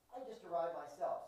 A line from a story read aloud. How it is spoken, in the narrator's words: said the other